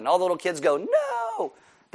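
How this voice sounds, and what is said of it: Imitates little kids' voices. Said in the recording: “my impersonation of little kids”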